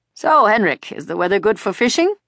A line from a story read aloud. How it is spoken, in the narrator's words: Papa asked cheerfully